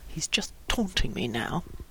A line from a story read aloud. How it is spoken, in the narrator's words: Howie mumbled to himself